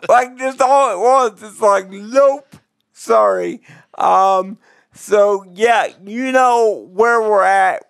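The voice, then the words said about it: Hoarse, fading voice. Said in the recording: “All of a sudden, I'm losing my voice,”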